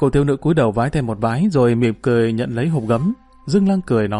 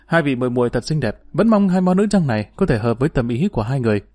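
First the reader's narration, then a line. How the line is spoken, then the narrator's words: Smiling warm voice. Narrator (Vietnamese): Hà Đáo Nương mỉm cười nói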